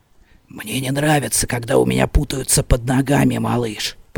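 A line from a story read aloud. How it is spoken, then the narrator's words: Whisper into ear. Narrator (Russian): прошептал мне на ухо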